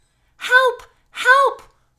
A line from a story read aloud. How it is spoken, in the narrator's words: cried Overthoughtful